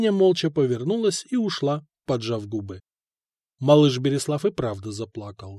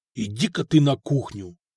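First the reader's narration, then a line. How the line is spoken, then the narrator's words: Angry, through clenched jaw. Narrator (Russian): зло сжал скулы князь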